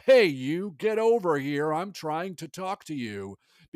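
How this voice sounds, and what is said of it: British speaker faking American accent. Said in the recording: “He sounded like he was a British person doing an American accent. ... British people are like, "I'm talking in an American accent right now.”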